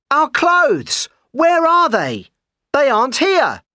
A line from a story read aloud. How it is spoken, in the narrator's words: he shouted to me